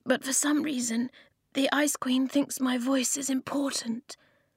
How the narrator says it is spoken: the girl whispered from behind him

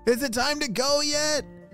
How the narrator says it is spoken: shouted Patton to his parents

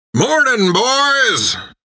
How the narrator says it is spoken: He bellowed

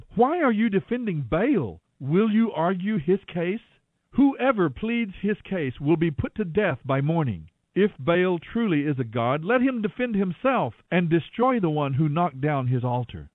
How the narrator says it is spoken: Joash shouted to the mob

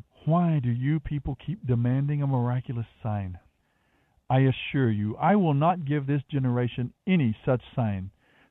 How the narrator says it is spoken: he sighed deeply and said

